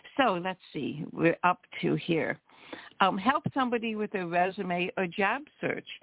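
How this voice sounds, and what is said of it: Hoarse, froggy voice. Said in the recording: “I usually have a frog in my throat in the morning... my hoarse voice”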